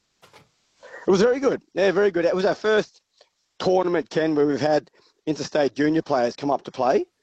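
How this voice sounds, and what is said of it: Hoarse, crusty voice. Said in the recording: “I've lost my voice. Well, my voice is a bit crusty”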